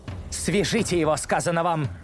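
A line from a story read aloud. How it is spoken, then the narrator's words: Shout. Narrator (Russian): снова выкрикнула белая колдунья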